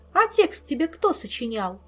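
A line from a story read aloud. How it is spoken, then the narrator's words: Angry snap. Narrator (Russian): сердито огрызнулась Ольга, досадуя на свою доверчивость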